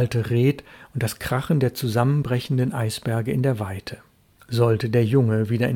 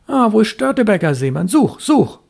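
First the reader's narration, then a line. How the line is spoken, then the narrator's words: Hasty call. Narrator (German): rief er hastig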